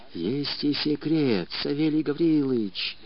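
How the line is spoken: Whispered explanation. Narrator (Russian): шепотом объяснил Мишка

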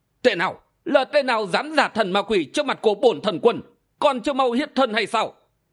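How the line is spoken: Hissing shriek. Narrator (Vietnamese): Hiền Viên Thần Quân rít lên

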